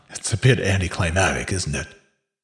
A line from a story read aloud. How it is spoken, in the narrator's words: He laughed